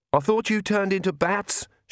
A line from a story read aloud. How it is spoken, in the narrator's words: she shouted to Vlad